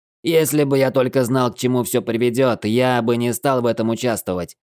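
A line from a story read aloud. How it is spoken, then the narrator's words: Shout. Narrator (Russian): снова выкрикнул Лефлер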